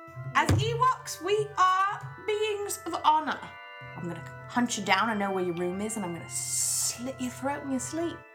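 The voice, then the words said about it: Inconsistent put-on Cockney-Australian accent. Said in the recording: “This Ewok's a bit cockney. ... There's a little Australian in there too. Yeah. It's really inconsistent. My accent is all over the place.”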